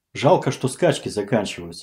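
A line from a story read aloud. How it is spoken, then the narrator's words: Plain. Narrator (Russian): сказал он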